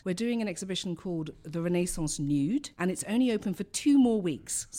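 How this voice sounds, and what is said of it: London British accent. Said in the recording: “I come from London, as you can tell by my accent.”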